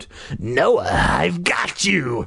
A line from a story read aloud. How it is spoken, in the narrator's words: Carly Beth shrieked, her voice deep, raspy, and evil